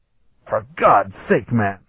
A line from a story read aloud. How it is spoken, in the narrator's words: he hissed